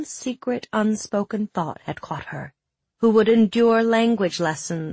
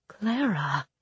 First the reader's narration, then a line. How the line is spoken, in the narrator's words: her mother whispered